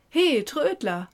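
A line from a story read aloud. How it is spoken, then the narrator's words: Calling out. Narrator (German): rief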